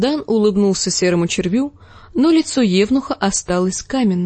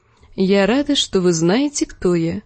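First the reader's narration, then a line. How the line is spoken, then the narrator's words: Soft. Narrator (Russian): мягко заметила Дэнни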